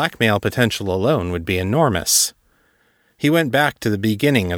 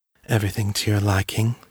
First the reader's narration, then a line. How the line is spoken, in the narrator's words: she purred